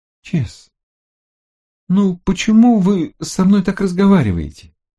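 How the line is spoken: Exasperated exclamation. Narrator (Russian): в сердцах воскликнула

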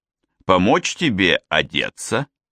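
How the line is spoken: Plain. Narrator (Russian): спросил он

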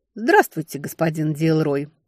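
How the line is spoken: Muttered. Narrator (Russian): буркнула я

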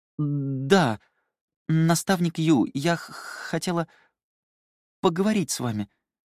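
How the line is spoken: Stammering mumble. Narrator (Russian): запинаясь, пробормотала она

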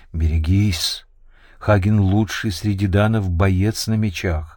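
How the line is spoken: Whispering. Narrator (Russian): Ачейка, шепнув

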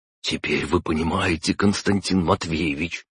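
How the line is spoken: Whisper. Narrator (Russian): прошептал Виноградов

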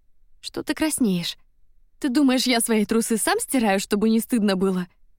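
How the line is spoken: Loud laughter. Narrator (Russian): хохотал он

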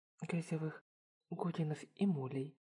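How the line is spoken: Quiet mutter. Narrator (Russian): тихо пробормотала Йоме

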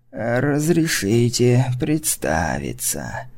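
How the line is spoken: Creaky voice. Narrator (Russian): проскрипело существо

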